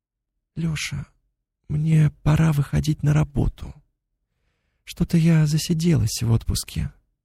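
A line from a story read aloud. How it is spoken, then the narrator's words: Quiet. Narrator (Russian): Она негромко произнесла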